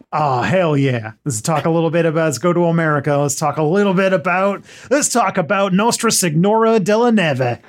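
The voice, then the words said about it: Put-on American accent. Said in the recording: “do your best American accent ... I don't think I've ever heard an American say that, those words before”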